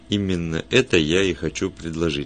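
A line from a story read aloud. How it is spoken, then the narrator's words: Plain. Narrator (Russian): сказал Вульф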